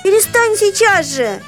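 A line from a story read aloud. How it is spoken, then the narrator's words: Shouting. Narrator (Russian): закричала я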